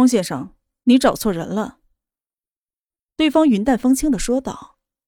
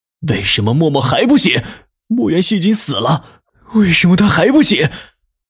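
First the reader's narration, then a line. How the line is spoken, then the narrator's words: Low growl. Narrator (Chinese): 他低吼道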